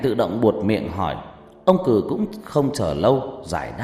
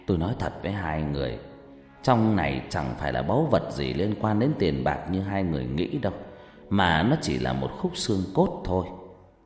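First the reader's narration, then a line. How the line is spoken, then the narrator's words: Sighing reply. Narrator (Vietnamese): Ông Cử thở dài rồi lại đáp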